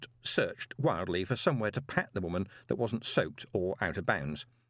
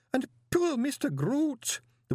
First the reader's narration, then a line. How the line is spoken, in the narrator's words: the woman sobbed